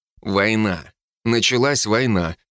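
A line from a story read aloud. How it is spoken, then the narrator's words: Grim. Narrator (Russian): мрачно ответил я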